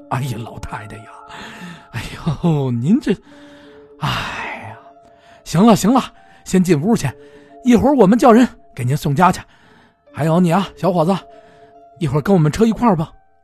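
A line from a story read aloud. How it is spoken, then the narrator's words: Continuous muttering. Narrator (Chinese): 不停的嘴里嘟囔着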